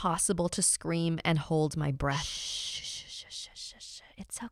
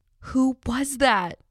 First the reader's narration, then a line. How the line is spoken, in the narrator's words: I cried